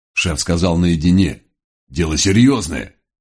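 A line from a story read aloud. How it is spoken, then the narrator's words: Nervous, barely suppressed growl. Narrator (Russian): нервный доберман едва сдерживал рычание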